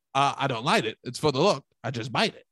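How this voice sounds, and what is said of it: Imitates another person's voice. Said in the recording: “This is my Don Draper impression.”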